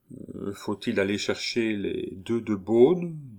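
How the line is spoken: Timid question. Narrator (French): demanda timidement Joulou

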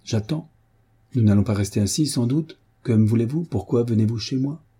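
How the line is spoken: Harsh male voice. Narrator (French): dit-il durement

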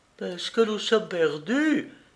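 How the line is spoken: Exclaimed. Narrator (French): s'écria-t-elle

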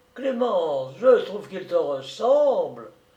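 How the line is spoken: Crying out. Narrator (French): il s'écriait

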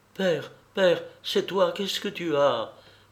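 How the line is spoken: Panicked cry. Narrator (French): s'écria-t-elle affolée

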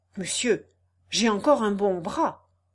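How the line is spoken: Exclaimed. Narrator (French): s'écria Octave

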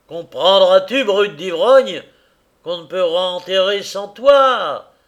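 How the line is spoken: Choking angry shout. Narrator (French): cria-t-il, étouffant de colère

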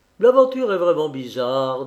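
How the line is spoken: Laughing. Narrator (French): dit mon père en riant

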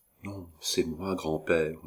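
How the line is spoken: Quiet reply. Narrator (French): répondit tout bas la jeune femme

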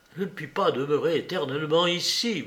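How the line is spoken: Murmured. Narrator (French): murmura-t-il

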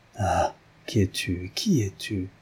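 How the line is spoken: Eager, breathless murmur. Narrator (French): murmura-t-il, tout palpitant de désir et de curiosité

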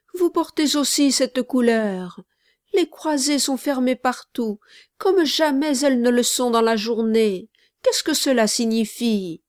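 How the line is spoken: Exclaimed. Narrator (French): s'écria-t-il

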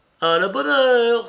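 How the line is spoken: Exclamation. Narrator (French): s'écria M

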